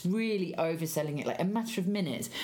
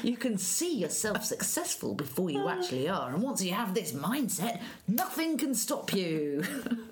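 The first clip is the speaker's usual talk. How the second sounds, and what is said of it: Game show host voice. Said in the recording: “game show voice”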